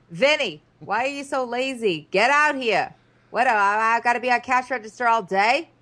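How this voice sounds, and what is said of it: Put-on Staten Island mom accent. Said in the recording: “She's going to have taken on the accent.”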